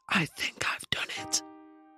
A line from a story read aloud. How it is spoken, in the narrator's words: smile and whisper to me